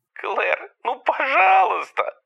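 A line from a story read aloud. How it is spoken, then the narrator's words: Whining. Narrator (Russian): заскулил он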